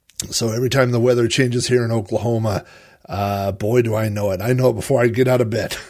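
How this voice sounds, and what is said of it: Congested, stuffed-up voice from a cold. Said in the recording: “I have a little bit of a cold, ... sniffling or clearing my throat ... if I sound a little stopped up”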